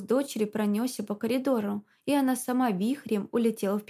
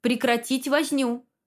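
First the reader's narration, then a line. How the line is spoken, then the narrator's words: Sharp shout. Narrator (Russian): прикрикнул на всех Захар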